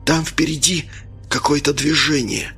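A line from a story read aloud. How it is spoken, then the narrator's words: Whisper. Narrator (Russian): прошептал Смирнов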